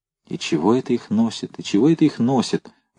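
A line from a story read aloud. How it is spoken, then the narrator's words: Young soldier muttering. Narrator (Russian): бормотал молодой красноармеец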